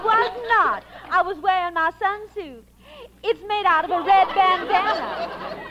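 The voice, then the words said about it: Southern American accent. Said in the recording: “you have a beautiful southern accent.”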